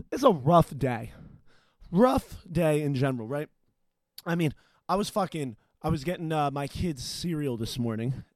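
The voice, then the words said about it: Out of breath, panting. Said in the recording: “God damn, I'm out of breath.”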